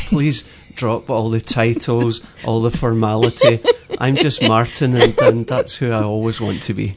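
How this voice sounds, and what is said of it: Scottish Glasgow accent. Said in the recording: “your accent is not from here, and it's a really cool accent ... growing up in Glasgow, which is in Scotland”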